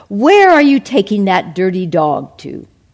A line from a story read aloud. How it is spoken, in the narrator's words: they laughed